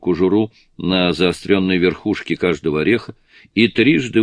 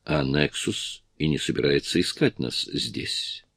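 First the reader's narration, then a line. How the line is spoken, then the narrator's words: Soft. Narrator (Russian): мягко ответил Джонатан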